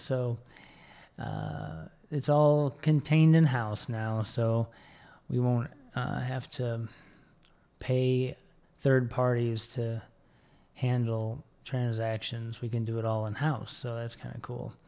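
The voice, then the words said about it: Rough, unwell-sounding voice. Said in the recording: “apologize for my voice... I'm still kind of, like I said, I'm recovering... I'm not going to be quite as sexy today”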